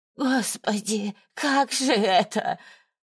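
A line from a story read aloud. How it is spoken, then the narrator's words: Moaning, groaning. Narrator (Russian): Валентина снова застонала и заохала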